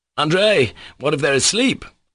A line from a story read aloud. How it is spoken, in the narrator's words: Suddenly Mitya cried out in horrible anxiety